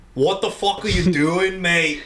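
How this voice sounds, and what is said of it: Poor put-on English accent. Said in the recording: “Sorry for the poor English accent.”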